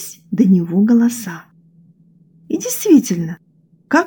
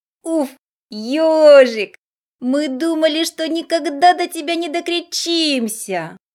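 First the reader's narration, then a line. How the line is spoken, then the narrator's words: Relieved sigh. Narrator (Russian): Облегченно вздохнул заяц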